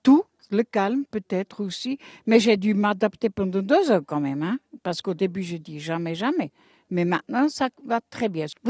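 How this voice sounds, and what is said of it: Light Swiss German accent in French. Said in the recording (French): “Vous avez un joli petit accent. C'est de quelle région de Suisse? ... De Münzingen, ça veut dire à Berne”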